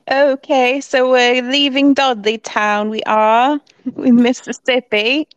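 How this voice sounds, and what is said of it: Good put-on accent. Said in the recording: “You do a really good accent.”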